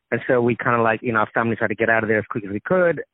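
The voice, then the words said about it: Australian accent. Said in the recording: “my accent, is an Australian accent.”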